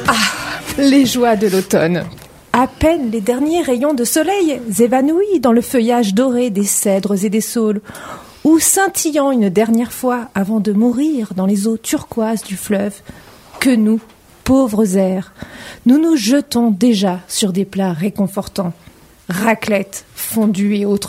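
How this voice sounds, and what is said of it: Put-on exaggerated French accent. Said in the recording (French): “Je vais prendre l'accent français. ... l'accent d'Anguin, ce serait bien. ... Je vais faire un effort, je vais m'appliquer.”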